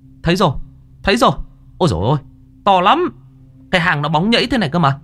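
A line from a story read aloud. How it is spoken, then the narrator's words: Excited shout. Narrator (Vietnamese): có người la lên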